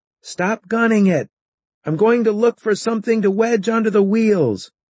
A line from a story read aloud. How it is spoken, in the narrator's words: I yelled up to Joey